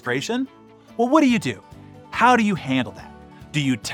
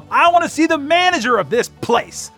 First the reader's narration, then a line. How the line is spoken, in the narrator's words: loudly enough for anybody in the place to hear her